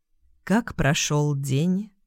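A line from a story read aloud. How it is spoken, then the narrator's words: Silky, seductive. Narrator (Russian): Вкрадчиво бархатным тоном опытного соблазнителя осведомился он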